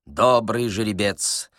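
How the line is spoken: Muttering. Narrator (Russian): Паниковский бормотал

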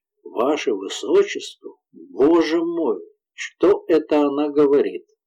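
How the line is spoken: Faint whisper. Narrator (Russian): прошептала девушка, почти теряя сознание

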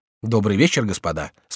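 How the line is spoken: Calm. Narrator (Russian): спокойно сказал Эрнатон

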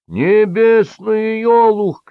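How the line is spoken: Shouting. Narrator (Russian): кричал принц Металл

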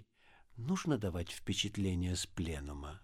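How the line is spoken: Very quiet question. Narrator (Russian): спросил он очень тихо

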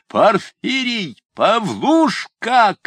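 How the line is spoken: Furious shout. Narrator (Russian): кричал Ноздрев в бешенстве

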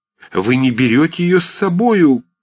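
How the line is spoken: Shouting after someone. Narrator (Russian): крикнула ему вслед Марья Дмитриевна

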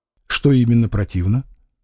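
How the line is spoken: Calm question. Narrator (Russian): спросил Маякин спокойно

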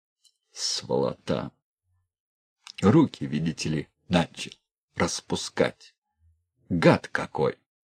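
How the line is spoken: Pained whisper. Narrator (Russian): Челюсть болела, князь шептал

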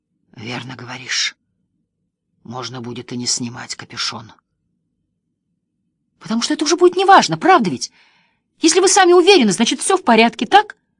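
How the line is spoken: Breathless hoarse whisper. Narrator (Russian): Он издавал какие-то непонятные звуки, будто ему не хватало воздуха, а потом хрипло прошептал

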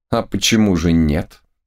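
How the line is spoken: Calm objection. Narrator (Russian): спокойно возразил Самуил

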